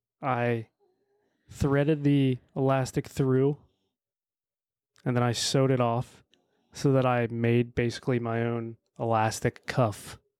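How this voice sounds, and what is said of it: Creepy serial-killer-like voice. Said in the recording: “You sounded like a serial killer when you were describing that. ... that was basically your Dahmer voice.”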